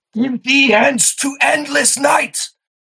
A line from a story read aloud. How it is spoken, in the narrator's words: he screams